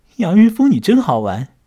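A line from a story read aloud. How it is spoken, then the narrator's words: Laughing. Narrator (Chinese): 唐爱丽笑了起来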